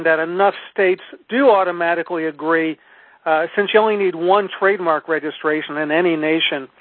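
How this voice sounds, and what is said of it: Hoarse voice. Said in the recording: “excuse my throat, my hoarseness”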